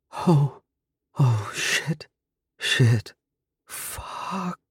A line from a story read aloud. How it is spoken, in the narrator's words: she murmured